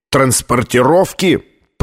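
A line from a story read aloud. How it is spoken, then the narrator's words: Booming voice. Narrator (Russian): прогремел Колер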